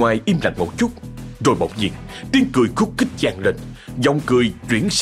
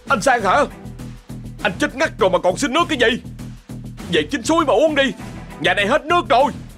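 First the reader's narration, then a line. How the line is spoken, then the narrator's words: Shouting. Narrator (Vietnamese): Anh hét giọng ra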